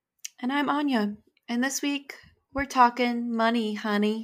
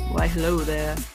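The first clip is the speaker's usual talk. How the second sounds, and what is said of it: Unusually deep voice. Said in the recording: “That was like a deep voice for you.”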